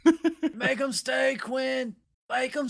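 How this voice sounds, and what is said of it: Imitates another person's voice. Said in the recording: “Good impression. Good Michael McConaughey impression.”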